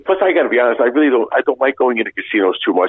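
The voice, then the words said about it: Distinct broken accent. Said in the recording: “my broken accent, it's something that stands out”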